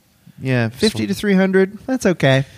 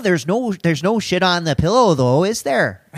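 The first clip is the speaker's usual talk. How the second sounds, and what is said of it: Put-on Fargo Minnesota accent. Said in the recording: “I need that Fargo accent. You do it.”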